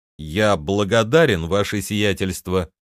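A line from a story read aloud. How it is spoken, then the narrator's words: Plain. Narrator (Russian): ответил я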